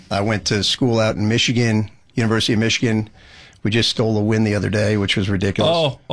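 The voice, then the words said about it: Strong New Jersey accent. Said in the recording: “that crazy accent ... Crazy accent. If you can't tell, I'm from Jersey. I was born in Brooklyn.”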